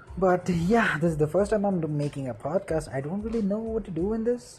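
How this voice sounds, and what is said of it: Indian English accent. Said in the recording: “I'm from India. Uh, I guess my accent gives it away.”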